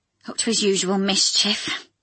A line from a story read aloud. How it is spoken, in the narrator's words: sighed